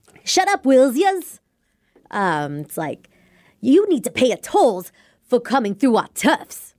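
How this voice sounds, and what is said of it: Cartoony tough-guy New York accent. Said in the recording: “New York accent ... kind of New York accent, and like the voice I used ... kind of tough guy ... over dramatic in my delivery. It was just cartoony.”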